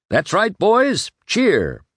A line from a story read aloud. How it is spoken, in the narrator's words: he cried